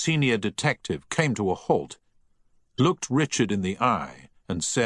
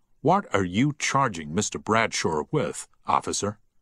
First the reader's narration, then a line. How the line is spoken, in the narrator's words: said firmly